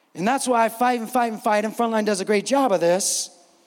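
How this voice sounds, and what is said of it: Raised, loud preaching voice. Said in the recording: “if I'm raising my voice”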